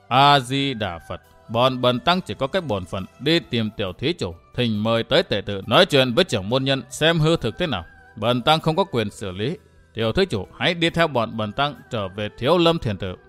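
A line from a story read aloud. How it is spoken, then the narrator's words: Gentle kindly voice. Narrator (Vietnamese): Đạt Ma thần tăng vẫn bằng một giọng từ hòa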